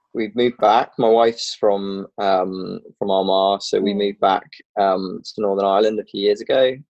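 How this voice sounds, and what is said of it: English accent. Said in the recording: “that's not a Rich Hill accent ... I'm the Englishman.”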